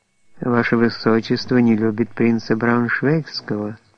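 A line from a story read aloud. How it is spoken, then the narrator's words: Strained gentle voice. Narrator (Russian): стараясь говорить тем же ласковым голосом, продолжал Берон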